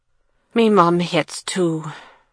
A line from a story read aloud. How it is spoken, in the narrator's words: he added with a sigh